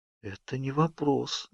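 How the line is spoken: Whispered. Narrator (Russian): прошептала

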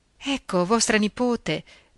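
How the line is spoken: Stammering, trembling voice. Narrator (Italian): balbettò la sorella con un tremito nella voce

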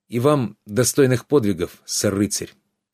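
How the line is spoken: Sad. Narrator (Russian): печально сказал Трикс

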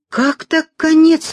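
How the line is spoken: Exclaiming. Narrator (Russian): воскликнул он

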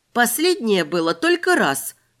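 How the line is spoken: Exclaimed. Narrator (Russian): воскликнула я

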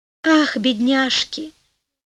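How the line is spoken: Sighing prince. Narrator (Russian): вздохнул королевич

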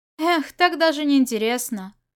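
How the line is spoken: Sighing. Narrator (Russian): Вздохнул Усянь

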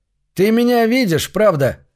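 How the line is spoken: Yelling. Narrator (Russian): заорал

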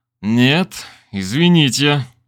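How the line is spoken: Through gritted teeth. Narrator (Russian): сквозь зубы ответил я

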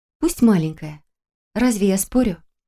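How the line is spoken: Soft agreement. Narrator (Russian): мягко согласилась Даф

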